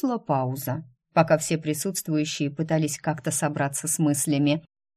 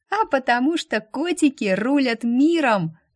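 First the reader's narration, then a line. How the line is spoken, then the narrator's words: Burst of laughter. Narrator (Russian): расхохоталась Полина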